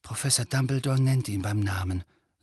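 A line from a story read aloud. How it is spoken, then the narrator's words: Quiet. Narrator (German): sagte Harry leise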